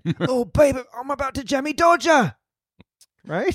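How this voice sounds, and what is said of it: Put-on British man's accent. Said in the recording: “doing an impression of a British man”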